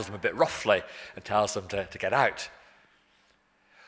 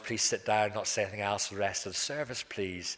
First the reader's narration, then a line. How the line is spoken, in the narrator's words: in a nice, gentle, quiet voice